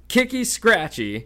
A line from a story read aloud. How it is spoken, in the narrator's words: cried Peeves happily